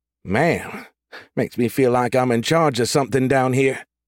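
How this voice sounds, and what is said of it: Woman's voice, slight bayou accent. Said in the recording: “a hint of the bayou in her accent”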